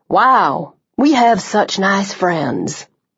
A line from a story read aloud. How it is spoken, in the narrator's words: Liam murmured